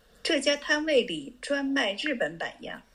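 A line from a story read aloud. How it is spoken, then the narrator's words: Smiling. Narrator (Chinese): 护生笑笑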